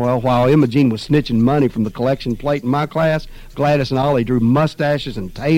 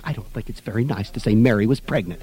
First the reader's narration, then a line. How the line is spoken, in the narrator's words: Alice whispered to me